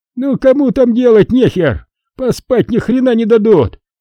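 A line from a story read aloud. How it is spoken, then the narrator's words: Shouting. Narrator (Russian): закричал Хасан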